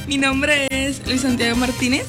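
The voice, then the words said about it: Bogotá-like cachaco accent, nervous. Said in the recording (Spanish): “Está cachacado ... se le salió un acento cachacado ahí porque está nervioso.”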